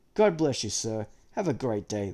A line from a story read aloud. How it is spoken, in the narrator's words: they exclaim almost in unison